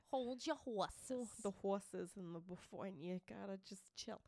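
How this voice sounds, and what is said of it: Strong Boston accent. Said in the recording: “that was a Boston... I'm from Massachusetts... sorry for the accent. It's ridiculous.”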